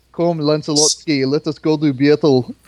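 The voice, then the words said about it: Mock Eastern European accent. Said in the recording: “did they give Arthur an Eastern European accent? That would be the greatest.”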